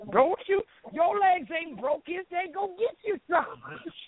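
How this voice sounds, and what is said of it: Old Southern Black grandmother voice. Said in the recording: “they wanted you to see that this old Southern black woman sounded like that ... this lady sounds like she was cast as the voice of Mrs. Butterworth”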